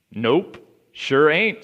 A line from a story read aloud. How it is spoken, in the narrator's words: said the man